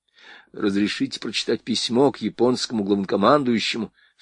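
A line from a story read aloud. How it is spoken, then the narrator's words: Ingratiating, insinuating. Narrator (Russian): вкрадчиво произнес Рейс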